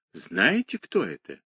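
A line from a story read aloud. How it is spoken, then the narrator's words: Timid distant whisper. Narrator (Russian): послышался робкий шепот из далекого угла вагона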